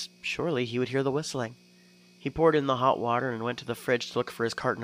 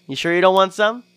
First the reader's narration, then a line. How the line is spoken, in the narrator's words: He laughed